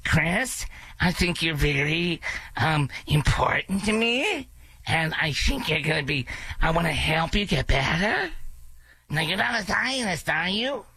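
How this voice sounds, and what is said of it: Nasal voice with questioning uptalk. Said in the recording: “you're always talking in question, and you talk to your nose ... I can't even impersonate without laughing!”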